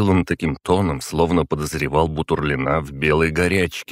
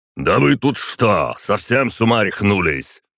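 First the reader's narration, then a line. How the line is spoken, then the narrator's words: Roared. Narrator (Russian): взревел Бутурлин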